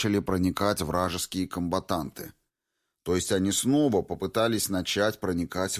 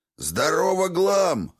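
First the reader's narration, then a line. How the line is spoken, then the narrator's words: Barking scribe. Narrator (Russian): рявкнул писец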